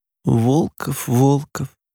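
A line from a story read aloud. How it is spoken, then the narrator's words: Sad voice. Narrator (Russian): голос Юлы прозвучал грустно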